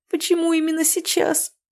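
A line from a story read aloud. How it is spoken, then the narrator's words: Tearful question. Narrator (Russian): сквозь слезы спросила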